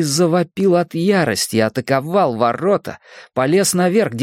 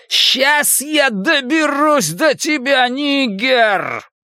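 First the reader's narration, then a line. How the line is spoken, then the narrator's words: Roaring. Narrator (Russian): проревел он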